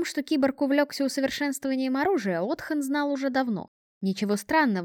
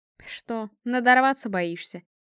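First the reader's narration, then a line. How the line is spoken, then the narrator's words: Snort. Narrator (Russian): хмыкнул Эрлайт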